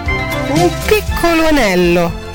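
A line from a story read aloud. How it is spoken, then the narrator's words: Sing-song pleading childlike voice. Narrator (Italian): disse con la voce cantilenante e supplichevole di un bambino che chiedeva un dolcetto di marzapane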